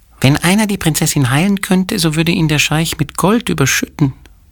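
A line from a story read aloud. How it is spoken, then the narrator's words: Squeaking. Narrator (German): piepste die andere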